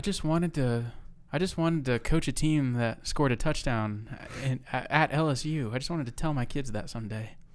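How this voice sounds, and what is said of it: Imitates another person's voice. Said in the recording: “great Barry Odom impression”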